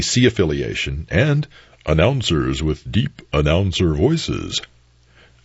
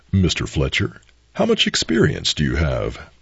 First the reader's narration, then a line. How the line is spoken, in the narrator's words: he asked, very kindly